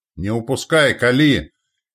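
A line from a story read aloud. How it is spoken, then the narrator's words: Wounded shout. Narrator (Russian): кричал окровавленный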